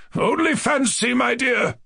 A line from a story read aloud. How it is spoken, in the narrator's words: cried the general